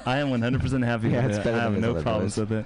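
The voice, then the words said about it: Calm radio host voice. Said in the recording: “We all go into NPR mode. ... my NPR voice.”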